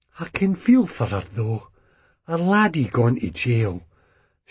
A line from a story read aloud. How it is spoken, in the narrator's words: Ma commented, but added wistfully